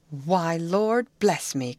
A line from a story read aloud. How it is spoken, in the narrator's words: cried the housekeeper